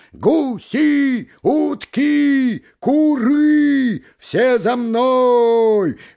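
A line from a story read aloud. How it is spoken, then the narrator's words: Goose shouting. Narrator (Russian): гусак крикнул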